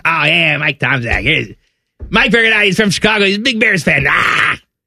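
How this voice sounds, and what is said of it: Imitates another person's voice. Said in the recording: “my Skip impersonation”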